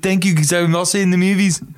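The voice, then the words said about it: Imitates another person's voice. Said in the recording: “can I try my Arnold? ... does really good impressions.”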